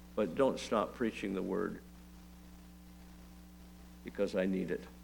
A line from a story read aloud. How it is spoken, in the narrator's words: he said in a soft voice